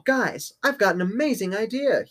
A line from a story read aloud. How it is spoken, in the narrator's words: he exclaimed